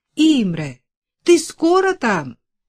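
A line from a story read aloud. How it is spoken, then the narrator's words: Impatient shout. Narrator (Russian): нетерпеливо крикнула Вера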